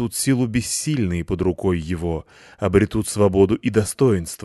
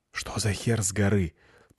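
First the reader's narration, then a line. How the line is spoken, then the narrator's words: Whisper in ear. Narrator (Russian): прошептал я на ухо Лайсе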